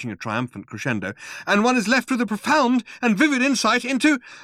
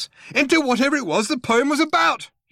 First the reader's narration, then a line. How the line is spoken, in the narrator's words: he yelled out of the corner of his mouth